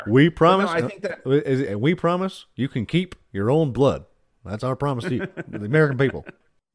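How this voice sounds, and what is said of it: Obama impression. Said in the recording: “that was a great imitation of Obama”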